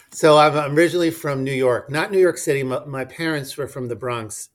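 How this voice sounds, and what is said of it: New York accent. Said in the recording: “where are you from with that accent? You've got, uh, you've definitely got an accent there.”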